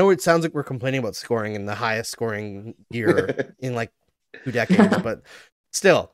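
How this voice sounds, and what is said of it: Usual voice. Nothing is said of it.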